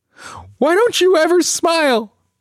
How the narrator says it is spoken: I scream the words, words coated in spikes of hurt, hoping to cut her

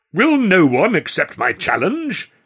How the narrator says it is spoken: Whimsical Walker cried in desperation

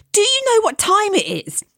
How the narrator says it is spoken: I blurted out

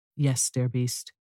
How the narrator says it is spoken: She answered softly

